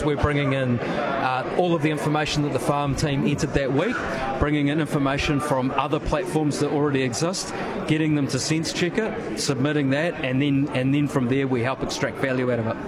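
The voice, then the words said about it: New Zealand accent. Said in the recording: “Pardon the accent, I'm assuming you're New Zealand based.”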